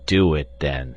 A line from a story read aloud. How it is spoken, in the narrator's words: growled Carl